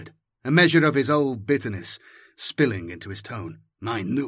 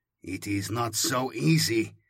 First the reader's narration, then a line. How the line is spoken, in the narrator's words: replied Shikanthus, through gritted teeth